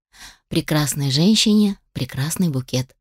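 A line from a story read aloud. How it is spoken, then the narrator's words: Plain. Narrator (Russian): сказал он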